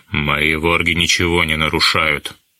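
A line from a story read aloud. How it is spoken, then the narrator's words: Grim, beastly repetition. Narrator (Russian): мрачно повторил полузверь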